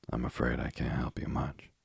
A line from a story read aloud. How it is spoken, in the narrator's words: rejoined with a sigh